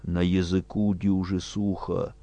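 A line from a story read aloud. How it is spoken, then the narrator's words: Mumbling. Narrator (Russian): Корней бормотал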